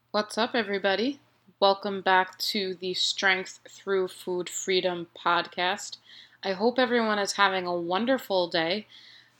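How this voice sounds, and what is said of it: Nasal, stuffed-up voice. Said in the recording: “my voice sounds a little maybe nasally or stuffed ... I would always get these colds”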